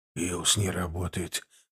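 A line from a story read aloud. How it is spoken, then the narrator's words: Hoarse. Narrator (Russian): хрипло сказал Дуглас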